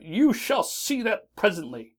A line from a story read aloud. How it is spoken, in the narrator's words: cried the ogre